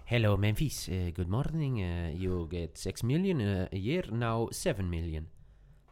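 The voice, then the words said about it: Imitated Laporta accent in English. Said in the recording (Dutch): “dit is ook niet een nieuw accent ... ik heb hier wel eens betere dingen horen imiteren”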